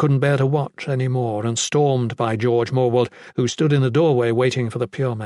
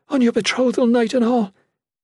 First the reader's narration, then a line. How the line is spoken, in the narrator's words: she cried